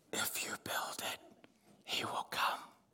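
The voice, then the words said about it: Creepy eerie whispered voice. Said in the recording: “That's a creepy voice.”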